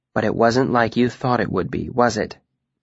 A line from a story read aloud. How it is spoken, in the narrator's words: Denna said, more gently this time